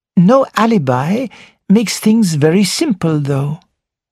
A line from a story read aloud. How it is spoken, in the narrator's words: said Poirot in a cheerful voice